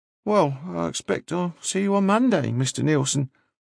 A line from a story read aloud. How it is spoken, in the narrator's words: sighed and said